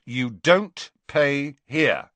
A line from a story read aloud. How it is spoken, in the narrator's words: said Fred firmly